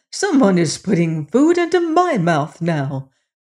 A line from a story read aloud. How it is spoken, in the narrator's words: cried the queen